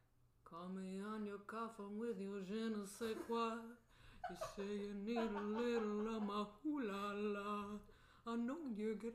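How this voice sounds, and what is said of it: Imitates another person's singing voice. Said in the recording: “Rex Manning impersonation”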